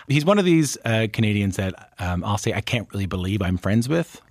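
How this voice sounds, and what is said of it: Newfoundland accent. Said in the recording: “as you might be able to tell from my accent ... where I'm from in Newfoundland and Labrador”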